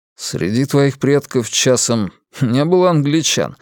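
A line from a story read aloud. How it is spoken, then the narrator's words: Snorting. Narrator (Russian): хмыкнул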